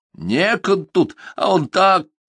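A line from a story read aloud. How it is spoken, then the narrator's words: Laughing instead of scolding. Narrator (Russian): Глафира, хотела прикрикнуть и рассмеялся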